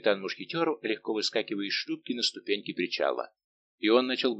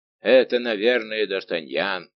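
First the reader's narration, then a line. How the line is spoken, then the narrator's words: Thunderous voice. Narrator (Russian): громовым голосом произнес Портос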